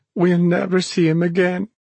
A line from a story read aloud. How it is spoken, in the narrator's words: she sobbed